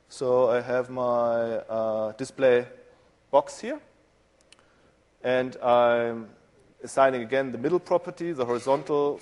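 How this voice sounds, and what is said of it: German accent. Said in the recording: “you might hear from my accent, I'm German in background”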